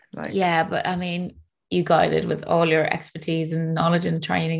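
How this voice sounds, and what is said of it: Teary, emotional voice. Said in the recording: “oh my God, I'm getting teary already.”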